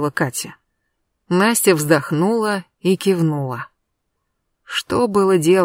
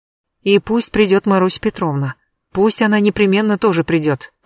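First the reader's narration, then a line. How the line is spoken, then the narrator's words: Hurried. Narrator (Russian): торопливо сказала Катя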